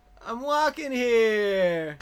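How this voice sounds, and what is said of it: Put-on Brooklyn accent. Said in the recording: “I can also do a Brooklyn accent.”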